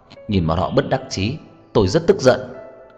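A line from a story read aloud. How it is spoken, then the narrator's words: Angry. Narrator (Vietnamese): Anh tức giận nói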